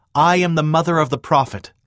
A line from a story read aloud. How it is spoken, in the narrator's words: Lucy Smith called out